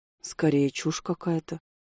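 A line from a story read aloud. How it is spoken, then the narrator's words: Barely audible correction. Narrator (Russian): еле слышно поправил его Селис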